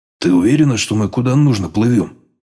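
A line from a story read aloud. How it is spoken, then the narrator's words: Grumbling. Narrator (Russian): проворчал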